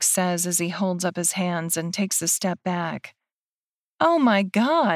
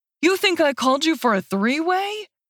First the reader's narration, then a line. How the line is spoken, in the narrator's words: Dean yells